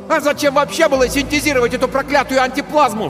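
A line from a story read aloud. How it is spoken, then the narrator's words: Sudden yell. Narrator (Russian): вдруг заорал Тиберий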